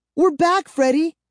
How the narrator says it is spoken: she cried happily

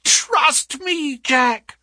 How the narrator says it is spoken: she cried

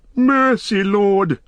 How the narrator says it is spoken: whined Wormtongue, grovelling on the ground

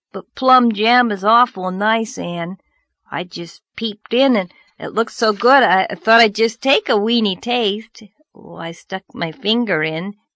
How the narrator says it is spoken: Anne groaned

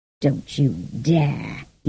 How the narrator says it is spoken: growled

